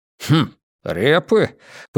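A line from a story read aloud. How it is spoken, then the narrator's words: Knowing grunt. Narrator (Russian): понимающе хмыкнул полковник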